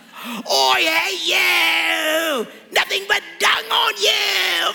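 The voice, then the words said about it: Comic put-on British accent. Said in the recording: “these guys all have British accents. So it's like a scene out of a Monty Python movie”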